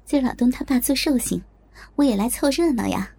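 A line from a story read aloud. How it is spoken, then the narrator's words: Smiling. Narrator (Chinese): 我笑着说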